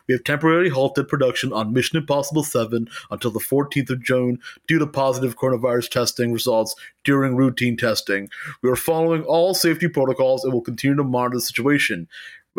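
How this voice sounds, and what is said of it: Put-on character voice. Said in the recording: “I did that voice,... that's the voice of the production assistant”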